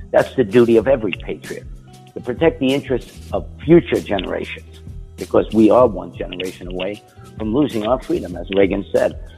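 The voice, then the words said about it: East Coast American accent. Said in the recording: “here's a guy with an East Coast accent that I haven't heard since I was in New York and since I was down in Florida”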